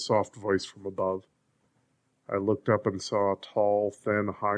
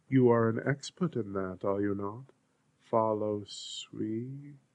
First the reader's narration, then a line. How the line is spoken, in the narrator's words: He hissed the S softly